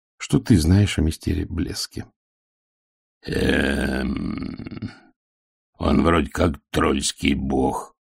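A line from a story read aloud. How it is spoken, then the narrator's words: Muttering. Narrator (Russian): пробормотал Детрит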